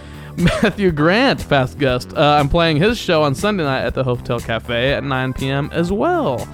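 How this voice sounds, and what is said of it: Announcer-style voice. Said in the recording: “Sorry for going into announcery voice there for a moment.”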